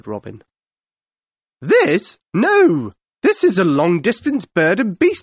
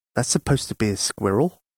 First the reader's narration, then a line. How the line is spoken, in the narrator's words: muttered the outlaws, but they were too polite to say it out loud